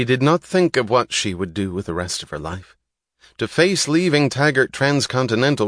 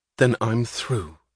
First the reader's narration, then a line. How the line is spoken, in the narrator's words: she answered